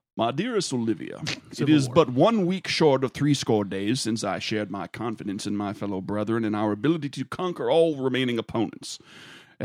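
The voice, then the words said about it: Put-on accent reading aloud. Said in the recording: “I'll affect an accent to help paint it.”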